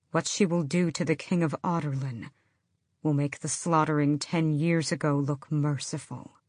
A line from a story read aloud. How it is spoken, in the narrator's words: Adian said quietly